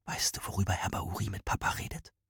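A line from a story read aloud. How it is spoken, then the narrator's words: Whisper. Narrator (German): flüsterte Rahmane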